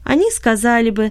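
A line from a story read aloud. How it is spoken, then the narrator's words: Laughing. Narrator (Russian): засмеялась она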